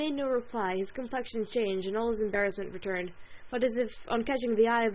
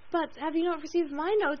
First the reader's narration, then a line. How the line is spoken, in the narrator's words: cried Marian in the wildest anxiety